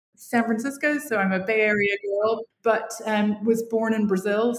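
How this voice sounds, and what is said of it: Fairly mid-Atlantic American accent. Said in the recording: “the accent is American, although most Americans would say it's fairly mid-Atlantic now”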